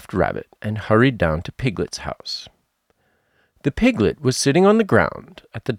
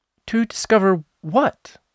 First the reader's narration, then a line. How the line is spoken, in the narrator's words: said Piglet anxiously